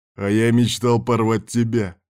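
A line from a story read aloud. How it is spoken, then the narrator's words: Growled. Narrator (Russian): рыкнул Ярван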